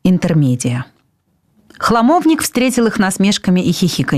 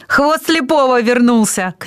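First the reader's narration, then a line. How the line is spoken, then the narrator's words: Shout. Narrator (Russian): крикнул Пышка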